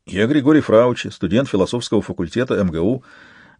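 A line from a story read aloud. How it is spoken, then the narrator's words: Rapid trembling young voice. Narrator (Russian): затараторил юноша дрожащими губами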